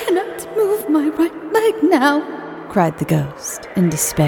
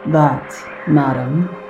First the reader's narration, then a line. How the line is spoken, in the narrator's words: said slowly